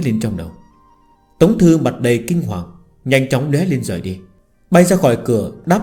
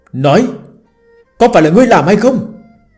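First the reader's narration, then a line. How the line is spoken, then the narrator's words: Angry. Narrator (Vietnamese): Tống Thư giận dữ hết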